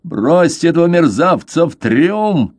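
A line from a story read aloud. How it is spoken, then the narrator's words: Roar. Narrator (Russian): проревел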